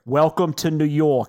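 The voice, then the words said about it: Stereotypical New York waitress accent. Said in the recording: “the most stereotypical New York waitress ever ... That sounded exactly like her accent.”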